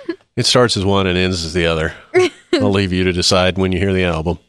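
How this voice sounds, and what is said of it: Usual voice. Nothing is said of it.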